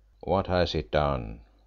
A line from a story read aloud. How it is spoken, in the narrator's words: asked Kemp sullenly